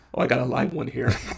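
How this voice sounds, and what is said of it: Imitates a movie character's voice. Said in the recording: “a good impression”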